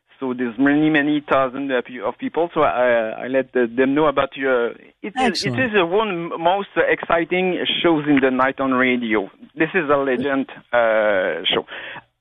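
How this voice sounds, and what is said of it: Quebec French accent. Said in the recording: “my French accent. I'm from Quebec.”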